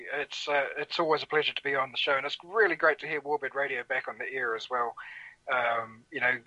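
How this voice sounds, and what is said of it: A pleasant regional accent. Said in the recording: “that gorgeous accent of yours”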